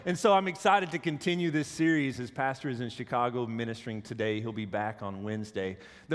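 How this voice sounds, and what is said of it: Deeper, congested voice. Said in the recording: “I have a bit of a cold this morning, so I apologize. However, my voice is a little deeper”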